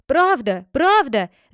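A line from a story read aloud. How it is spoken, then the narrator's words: Shout. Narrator (Russian): закричал Катани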